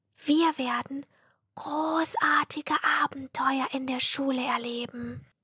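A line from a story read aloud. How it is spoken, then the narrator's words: Excited whisper. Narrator (German): flüsterte Mathilda mit strahlenden Augen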